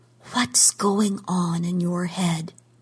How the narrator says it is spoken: whispered

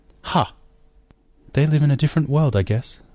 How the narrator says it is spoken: Martha sighed

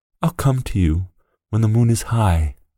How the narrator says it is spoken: whispered the boy

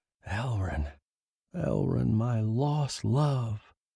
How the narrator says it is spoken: In my heart I whispered

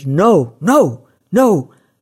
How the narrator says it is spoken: the boy's shrieks

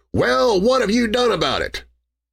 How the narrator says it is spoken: Aymer say in a shout right through the partly opened door

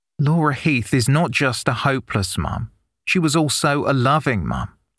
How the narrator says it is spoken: the barrister said

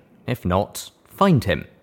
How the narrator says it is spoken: Jinrami said firmly

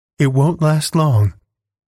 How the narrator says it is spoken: replied Alice, and her voice sounded extraordinarily calm through the darkness

